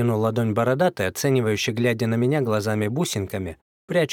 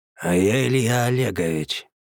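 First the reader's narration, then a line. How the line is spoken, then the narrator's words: Hoarse remark. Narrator (Russian): хриплым голосом проронил худой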